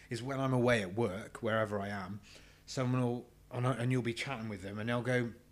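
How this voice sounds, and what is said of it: English Herefordshire regional accent. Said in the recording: “my own voice with my carrot crunching fucking accent, Herefordian accent”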